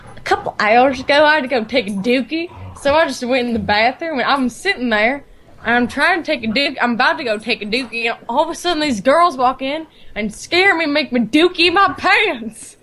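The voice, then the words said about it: Thick country accent. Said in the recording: “she has this really thick country accent”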